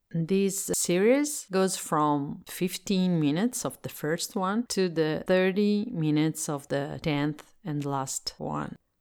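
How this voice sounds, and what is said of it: Italian accent speaking English. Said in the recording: “I'm Italian and I live in Italy, so I speak English as a second language. If my accent”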